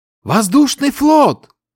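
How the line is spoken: Shouting again from above. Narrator (Russian): вновь закричал боец, сидящий наверху в специальной корзине

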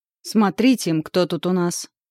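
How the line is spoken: Angry. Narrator (Russian): Голос Ваньки звучит сердито

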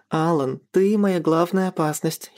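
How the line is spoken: Girlish giggle. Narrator (Russian): хихикнула девушка

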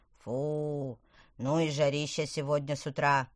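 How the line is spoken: Groan. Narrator (Russian): простонал он

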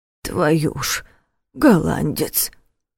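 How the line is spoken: Muttering. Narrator (Russian): пробормотал дядя Коля

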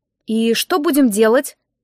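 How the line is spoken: Strained, after pause. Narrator (Russian): выдавила я после паузы

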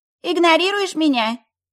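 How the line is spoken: Shrill voice over phone. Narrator (Russian): Взвизгнул мобильный голосом мамы

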